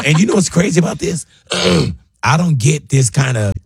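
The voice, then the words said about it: Rough voice cutting in and out. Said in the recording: “my voice is on and off ... I got a little something in my throat ... Yeah, I hear it.”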